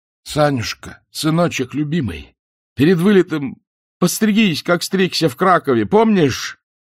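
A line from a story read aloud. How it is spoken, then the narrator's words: Straining shout into phone. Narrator (Russian): Исаев, надрываясь, прокричал в трубку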